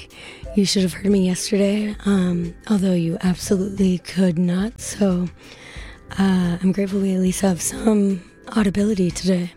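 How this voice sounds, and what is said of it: Weak, strained voice. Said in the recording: “my voice is a little weak”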